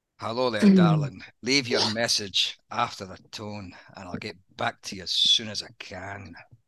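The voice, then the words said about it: Exaggerated Scottish accent. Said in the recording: “the accent's a little bit stronger than what it is in real life ... it's Sean Connery ... see if I can make it even more Scottish ... That's bad.”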